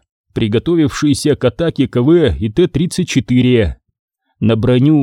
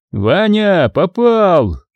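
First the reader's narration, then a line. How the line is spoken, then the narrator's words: Joyful shout. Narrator (Russian): радостно крикнул Калюжный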